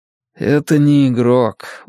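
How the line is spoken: Tired explaining. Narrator (Russian): устало объясняю я

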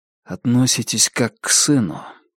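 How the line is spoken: Quiet. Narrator (Russian): тихо закончил фразу Джонни

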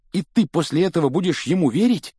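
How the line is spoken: Angry exclamation after slap. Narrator (Russian): гневно воскликнул Рон, получив хорошую оплеуху от одного из разбушевавшихся баловников

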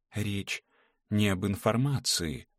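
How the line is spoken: Very quiet. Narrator (Russian): сказала она очень тихо

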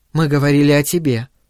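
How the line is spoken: Calm. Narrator (Russian): спокойно сказала Венди

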